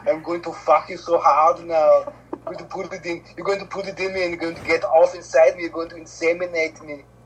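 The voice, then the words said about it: Put-on foreign accent. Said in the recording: “This is a wonderful accent.”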